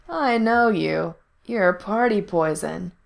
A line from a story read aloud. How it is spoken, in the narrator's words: he drawled